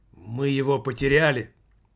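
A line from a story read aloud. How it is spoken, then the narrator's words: Sudden exclamation. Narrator (Russian): Вдруг Немаркетинг воскликнул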